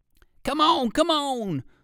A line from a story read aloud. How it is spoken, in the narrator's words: barked the first dog